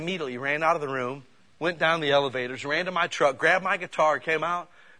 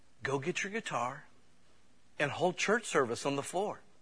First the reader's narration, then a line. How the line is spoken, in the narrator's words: the Spirit of God whispered to me and said